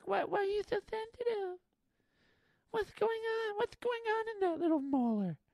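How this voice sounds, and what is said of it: Silly little character voice. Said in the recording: “doing that little voice”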